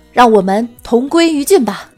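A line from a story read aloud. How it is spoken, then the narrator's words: Loud. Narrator (Chinese): 大声道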